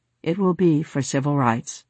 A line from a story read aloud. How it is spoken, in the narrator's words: Johnson wistfully told me